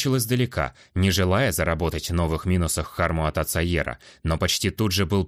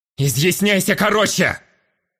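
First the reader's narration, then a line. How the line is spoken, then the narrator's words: Barked, head of family. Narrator (Russian): рявкнул глава семьи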